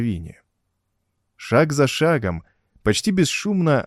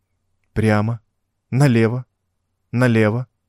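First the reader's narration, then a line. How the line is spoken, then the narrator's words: Dry, clipped recitation. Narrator (Russian): сухо выговаривал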